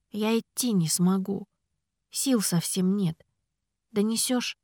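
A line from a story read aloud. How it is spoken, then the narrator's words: Quiet remark. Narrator (Russian): тихо заметила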